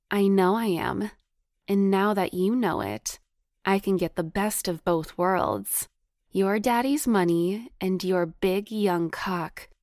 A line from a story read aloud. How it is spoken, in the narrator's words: she purred seductively